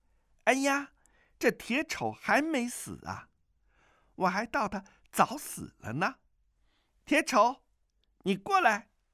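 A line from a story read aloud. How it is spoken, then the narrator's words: Clear, laughing voice. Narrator (Chinese): 一个清脆的声音笑道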